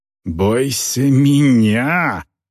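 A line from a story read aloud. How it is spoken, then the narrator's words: Growling. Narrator (Russian): прорычала орка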